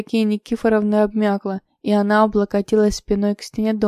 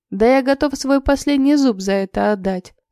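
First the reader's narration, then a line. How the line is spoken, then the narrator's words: Toothless old man laughing. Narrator (Russian): рассмеялся дед Митяй своим беззубым ртом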